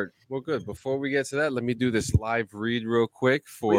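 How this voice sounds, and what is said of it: Usual voice. Nothing is said of it.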